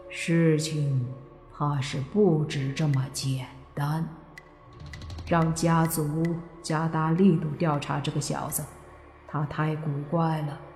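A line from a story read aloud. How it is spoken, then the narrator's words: Low voice. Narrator (Chinese): 黑影王伟杰低声说道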